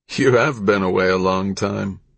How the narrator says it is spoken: laughed Viper Two

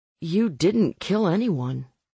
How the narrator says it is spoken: I said

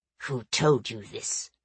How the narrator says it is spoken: he hissed

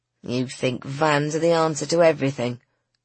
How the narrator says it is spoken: grumbled Griffin

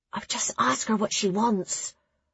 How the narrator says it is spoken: Nona whispered

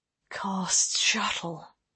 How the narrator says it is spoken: Lane breathed

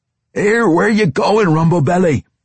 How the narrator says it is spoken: Brunner shouted

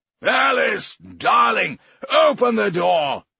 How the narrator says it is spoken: Mayfair shouted

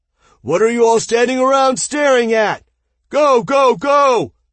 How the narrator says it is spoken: Aten shouted

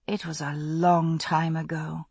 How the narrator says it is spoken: I said softly

